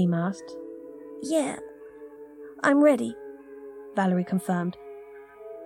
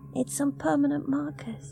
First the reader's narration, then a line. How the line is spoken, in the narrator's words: she said softly